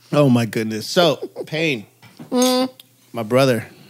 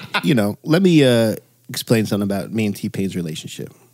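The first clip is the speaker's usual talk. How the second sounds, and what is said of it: Deep, bass-heavy serious voice. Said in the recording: “This is ... serious voice. ... When I throw bass on the voice, you know it's about to be a serious story.”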